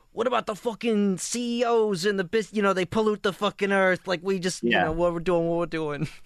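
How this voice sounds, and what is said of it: Mobster impression with Midwestern-sounding accent. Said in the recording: “The way you were doing the accent, it sounds like he's from Cincinnati.”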